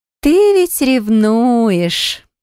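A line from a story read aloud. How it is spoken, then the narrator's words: Smiling drawl. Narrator (Russian): протянула Беатри, широко улыбаясь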